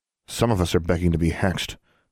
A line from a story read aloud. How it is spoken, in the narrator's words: Alexandra muttered